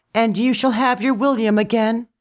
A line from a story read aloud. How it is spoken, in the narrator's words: she cried as she floated further away